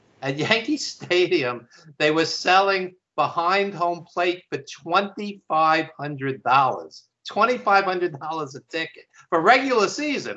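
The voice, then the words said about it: New York accent. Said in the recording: “I live in New York, obviously, as you could tell by my accent.”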